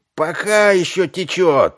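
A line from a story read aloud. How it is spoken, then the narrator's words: Shouted out. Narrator (Russian): выкрикнул кто-то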